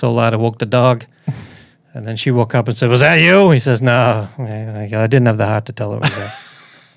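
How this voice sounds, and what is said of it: Deliberately bad put-on accent. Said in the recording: “you did it with the bad accent.”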